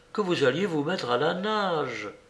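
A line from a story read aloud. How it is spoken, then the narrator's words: Murmuring. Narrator (French): murmura-t-elle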